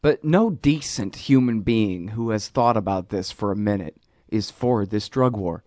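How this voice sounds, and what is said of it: Patronizing, condescending tone. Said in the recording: “I can already hear it in my voice. I sound so damn patronizing”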